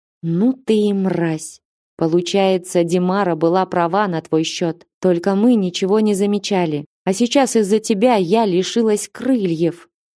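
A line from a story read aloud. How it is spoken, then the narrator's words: Through gritted teeth. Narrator (Russian): процедила справедливость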